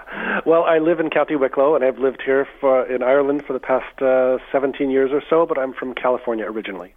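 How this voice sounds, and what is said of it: Californian American accent. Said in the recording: “not a local accent ... You haven't lost your accent at all.”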